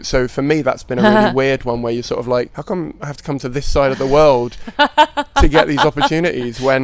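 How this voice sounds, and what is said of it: British accent. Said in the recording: “accent ... I keep forgetting I have an accent ... It's British”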